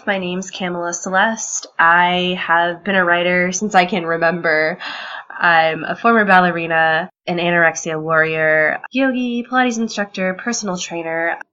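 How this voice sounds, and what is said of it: Nasal, congested voice. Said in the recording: “I am feeling a little bit under the weather, if you can't tell by my voice. ... I'm a bit nasally right now”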